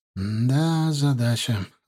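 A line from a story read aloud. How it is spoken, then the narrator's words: Breathed out. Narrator (Russian): выдохнул он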